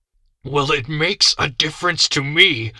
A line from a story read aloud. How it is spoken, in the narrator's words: I said angrily